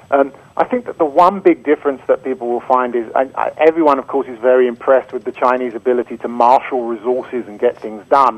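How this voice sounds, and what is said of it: British London accent. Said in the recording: “I hear your accent. It sounds, I'm going to guess, British. ... I'm originally a Londoner.”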